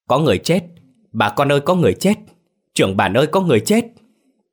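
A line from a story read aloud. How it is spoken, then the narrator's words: Father and son screaming. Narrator (Vietnamese): Tiếng la hét của hai cha con vang trong đêm khuya thanh vắng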